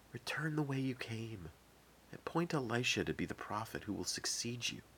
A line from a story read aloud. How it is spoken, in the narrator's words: a gentle whisper which said